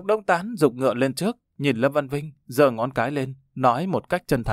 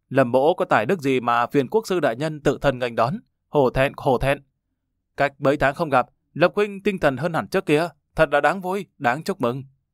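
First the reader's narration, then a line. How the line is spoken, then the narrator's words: Hearty laughing reply. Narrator (Vietnamese): Lâm Văn Vinh ha ha cười lớn, đáp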